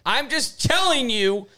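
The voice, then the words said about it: Yelling. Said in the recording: “Sorry for yelling.”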